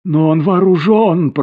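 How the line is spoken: Moaning. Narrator (Russian): простонала Марианна

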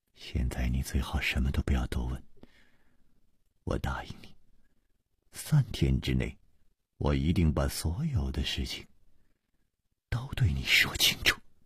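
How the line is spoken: Soft gentle voice. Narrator (Chinese): 楚留香柔声说

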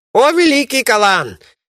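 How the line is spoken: Shouted. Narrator (Russian): закричал

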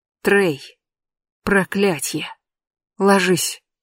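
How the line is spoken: Hoarse whisper. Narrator (Russian): хрипло шепчу я

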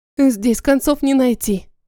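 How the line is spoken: Sad. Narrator (Russian): печально резюмировала я

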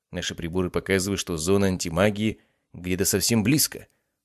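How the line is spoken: Calmer. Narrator (Russian): уже более спокойно сказал руководитель экспедиции

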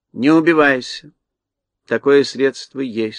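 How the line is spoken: Calm. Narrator (Russian): спокойно молвила волшебница

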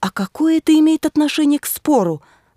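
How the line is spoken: Exclaiming. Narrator (Russian): воскликнула я

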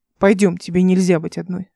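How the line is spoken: Plain. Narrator (Russian): сказал он

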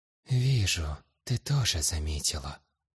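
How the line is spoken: Intense heartfelt whisper. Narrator (Russian): проникновенно зашептала мать

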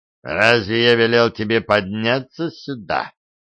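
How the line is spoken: Growl. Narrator (Russian): прорычал он

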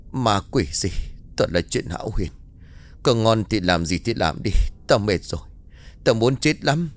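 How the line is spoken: Tired muttering. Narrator (Vietnamese): Anh nằm vật xuống giường rồi lầm bầm

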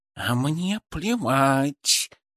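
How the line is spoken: Hissed. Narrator (Russian): Шипа зашипела

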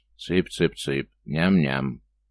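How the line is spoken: Clear hoarse dragon voice. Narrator (Russian): дракон вполне внятно хрипло произнес

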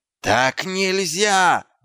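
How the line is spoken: Yelling. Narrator (Russian): заорал гном

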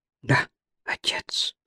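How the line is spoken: Whisper. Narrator (Russian): прошептал Флэк

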